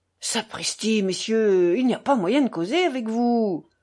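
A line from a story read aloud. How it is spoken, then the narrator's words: Exasperated angry shout. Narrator (French): s'écria Mitya exaspéré, rouge de colère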